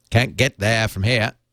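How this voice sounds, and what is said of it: Put-on Maine Downeaster accent. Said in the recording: “That's kind of a Maine, isn't that a Downeaster accent, kind of?”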